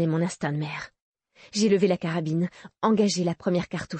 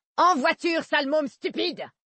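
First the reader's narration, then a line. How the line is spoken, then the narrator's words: Shrill scream. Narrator (French): hurlait-elle d'une voix stridente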